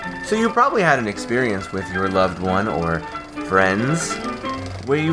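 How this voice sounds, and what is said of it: Usual voice. Nothing is said of it.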